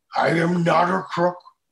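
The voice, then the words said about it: Imitates another person's voice. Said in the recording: “everyone does a Nixon... let me hear your I'm not a crook.”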